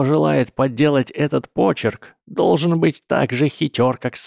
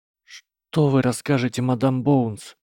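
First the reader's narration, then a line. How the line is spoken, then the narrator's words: Whisper. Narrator (Russian): прошептала она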